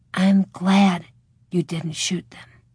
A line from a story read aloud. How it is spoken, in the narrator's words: Laura whispered in his ear